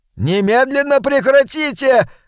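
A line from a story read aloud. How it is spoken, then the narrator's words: Frightened scream. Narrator (Russian): завопила жертва, испуганно пятясь назад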